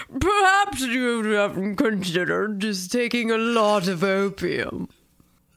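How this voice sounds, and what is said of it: Spooky skeleton voice as Lord Byron. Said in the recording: “Lord Byron? ... Perfect skeleton accent.”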